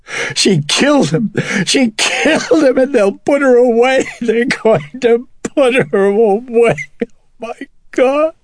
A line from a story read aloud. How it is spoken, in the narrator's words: sobbing